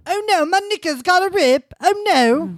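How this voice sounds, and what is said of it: Bad put-on British accent. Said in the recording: “Your accent is awful. ... I have the best British accent.”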